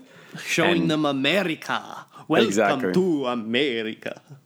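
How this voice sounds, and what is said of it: Put-on Russian accent. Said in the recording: “That's a Russian accent”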